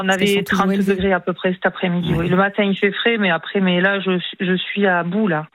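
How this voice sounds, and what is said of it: Southern French accent. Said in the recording (French): “l'accent du Sud”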